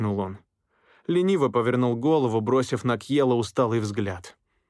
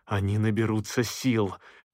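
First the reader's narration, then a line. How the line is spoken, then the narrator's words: Through clenched teeth. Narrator (Russian): процедил Кьелл сквозь стиснутые зубы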